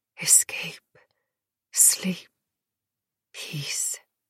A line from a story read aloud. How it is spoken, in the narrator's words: That dark drop whispering